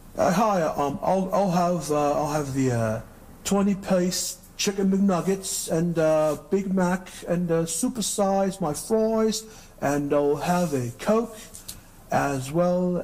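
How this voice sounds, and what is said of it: Put-on British accent. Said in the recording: “let me do my British accent.”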